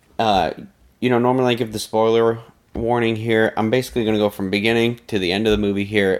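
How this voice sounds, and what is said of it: Quiet, soft, hushed speaking voice. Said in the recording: “I'm talking a little quietly ... my voice is a little sultry”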